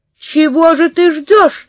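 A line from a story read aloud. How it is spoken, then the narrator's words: Shouting. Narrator (Russian): закричала я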